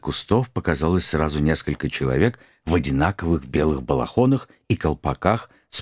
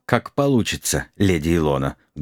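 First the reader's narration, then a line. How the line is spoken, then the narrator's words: Muffled, dull reply. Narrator (Russian): глухо ответил крестоносец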